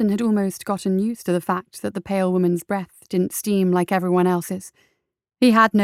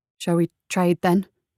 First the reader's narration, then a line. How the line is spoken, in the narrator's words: asked hesitantly